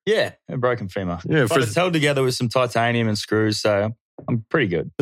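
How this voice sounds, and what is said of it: Australian accent. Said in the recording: “that beautiful Australian accent”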